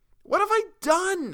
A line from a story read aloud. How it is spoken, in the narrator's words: I cried again